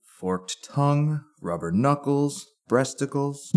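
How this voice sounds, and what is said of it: Monotone droning voice. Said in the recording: “his monotone voice droned on.”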